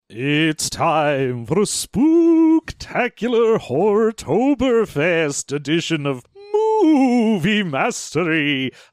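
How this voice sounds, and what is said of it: Spooky vampire or ghost voice. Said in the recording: “I don't know if I'm doing a vampire or a ghost here. I think my accent is a little confused.”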